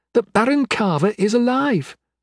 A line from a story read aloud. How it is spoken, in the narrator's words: exclaimed, face beaming